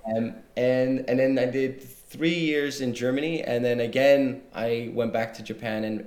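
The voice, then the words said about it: Fairly neutral international English accent. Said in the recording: “my accent ... I have sort of a bit of a neutral one”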